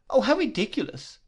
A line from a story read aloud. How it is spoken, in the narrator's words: cried Dora